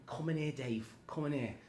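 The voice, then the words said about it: Liverpool accent. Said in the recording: “that's a Liverpool accent”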